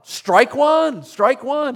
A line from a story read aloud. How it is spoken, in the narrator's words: He shouted out